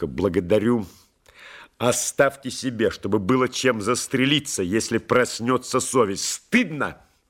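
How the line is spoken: Sharp rebuke. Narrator (Russian): Резко одернул полковник

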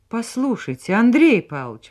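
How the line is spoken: Excited exclamation. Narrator (Russian): воскликнула она взволнованно

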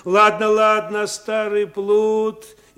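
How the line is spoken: Interrupting shout in face. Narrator (Russian): тот, не дослушав, крикнув прямо в лицо

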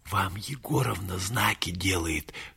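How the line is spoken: Whisper. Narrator (Russian): шепнул Юра Александру Александровичу

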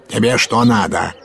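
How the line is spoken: Barked roughly. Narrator (Russian): гаркнул урядник

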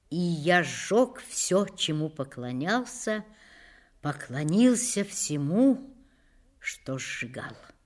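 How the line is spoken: Slow, measured. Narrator (Russian): медленно произнес

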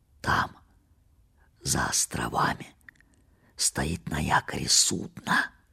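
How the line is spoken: Whisper. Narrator (Russian): прошептал он

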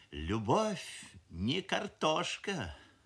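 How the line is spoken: Mother's sigh. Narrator (Russian): вздохнула мамаша

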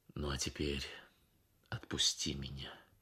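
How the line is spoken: Pained, restrained. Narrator (Russian): Ахмат почувствовал, как сердце его обливается кровью, но сказал только

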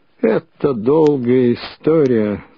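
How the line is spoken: Muffled, hollow voice. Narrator (Russian): глухо начал он

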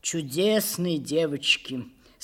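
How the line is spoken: Sighing. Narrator (Russian): сказал он, вздохнув

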